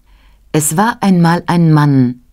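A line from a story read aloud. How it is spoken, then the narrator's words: Plain. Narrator (German): sagte sie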